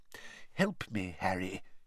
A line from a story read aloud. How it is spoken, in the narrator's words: he muttered